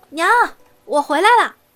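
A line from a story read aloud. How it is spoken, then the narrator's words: Smiling call while running. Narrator (Chinese): 苏玲唇角一弯，一面跑一面叫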